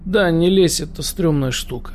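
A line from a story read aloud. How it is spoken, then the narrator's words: Gloomy. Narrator (Russian): мрачно кивает головой свисток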